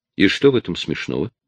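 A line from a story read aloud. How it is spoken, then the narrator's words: Sharp question. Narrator (Russian): резко спросила она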